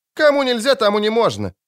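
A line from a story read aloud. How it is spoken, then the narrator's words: Snort. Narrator (Russian): фыркнула Ангулема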